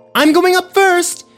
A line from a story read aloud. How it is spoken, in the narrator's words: yelled Parker